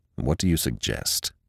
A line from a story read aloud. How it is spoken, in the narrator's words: said Jeffries coldly